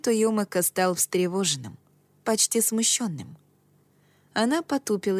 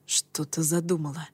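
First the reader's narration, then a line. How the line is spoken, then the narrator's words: Whispered question. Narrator (Russian): спросил я шепотом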